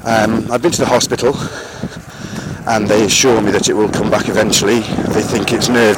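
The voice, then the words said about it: Slightly out of breath. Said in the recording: “as you can hear, I'm probably slightly out of breath”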